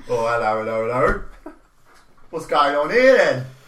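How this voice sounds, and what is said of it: Put-on Cockney accent. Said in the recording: “Is it in a Cockney accent?”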